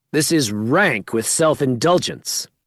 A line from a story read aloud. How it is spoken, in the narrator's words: shouts